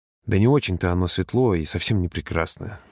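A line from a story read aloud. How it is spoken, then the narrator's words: Grumble. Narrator (Russian): буркнул он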